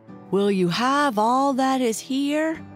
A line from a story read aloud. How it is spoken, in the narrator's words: Tom slipped through the window bars into the room and then called out as loud as he could